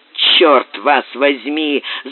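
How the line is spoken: Grumbled. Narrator (Russian): заворчал Боб

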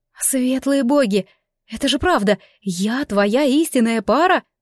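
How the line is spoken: Breathless exhale. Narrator (Russian): выдохнула я

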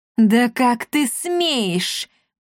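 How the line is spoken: Hiss. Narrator (Russian): прошипела

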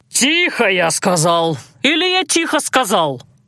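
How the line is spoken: Deafening bark. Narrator (Russian): Гаркнул он так, что у меня заложило уши

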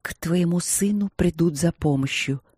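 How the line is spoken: Whisper in ear. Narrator (Russian): прошептала она супругу на ухо

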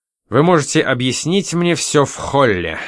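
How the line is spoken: Irritated reply. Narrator (Russian): раздраженно ответил он

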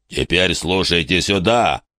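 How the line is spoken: Booming. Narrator (Russian): прогремел Большой Рог

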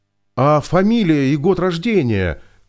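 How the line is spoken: Shouted after them. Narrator (Russian): крикнул Виктор им в спину

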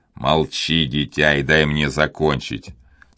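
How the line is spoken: Stern speech. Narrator (Russian): строго сказал Дожерон

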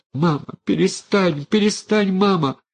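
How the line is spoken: Sobbing. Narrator (Russian): Рыдала Аниска

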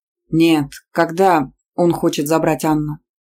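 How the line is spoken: Dry, stiff-lipped speech. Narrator (Russian): Снова сухо, непослушными губами произнес Исаев

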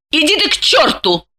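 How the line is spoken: Snapping retort. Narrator (Russian): огрызнулась Глафира

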